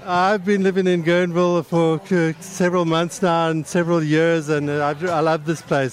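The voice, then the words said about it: South African accent. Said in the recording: “I'm trying to place your accent ... Most Americans don't understand. Think it's a British accent, but it's not British and it's not Australian ... No, it's not Irish. It's South African.”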